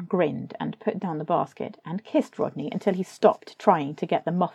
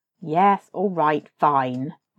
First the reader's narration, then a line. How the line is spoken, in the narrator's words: Rodney said irritably